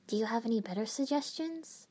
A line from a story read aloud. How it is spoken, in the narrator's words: I asked softly